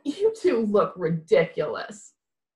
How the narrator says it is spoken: Nate pointed and laughed and said

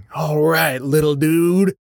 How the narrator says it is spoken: wheezing

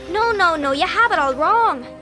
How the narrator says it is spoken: she squealed

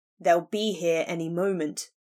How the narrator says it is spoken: Griffin growled

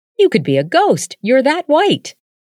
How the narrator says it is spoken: exclaimed Ethel

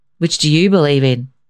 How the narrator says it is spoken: grandfather asked gruffly

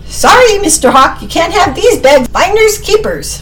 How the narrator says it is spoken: Sammy shout to the hawk

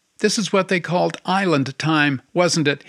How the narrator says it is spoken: he asked her

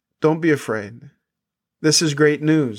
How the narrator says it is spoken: the angel says

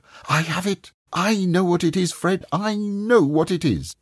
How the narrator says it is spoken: his sister cried out

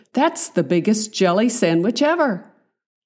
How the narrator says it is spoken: Davy exclaimed

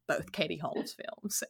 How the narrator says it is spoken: under my breath

